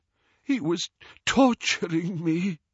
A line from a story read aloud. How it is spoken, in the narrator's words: he gasped